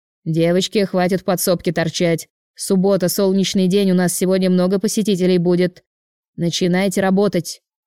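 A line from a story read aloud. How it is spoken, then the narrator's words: Shouted from another room. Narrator (Russian): прикрикнул на них из торгового зала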